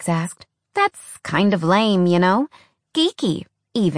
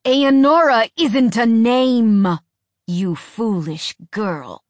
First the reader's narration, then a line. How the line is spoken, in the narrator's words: Avon spat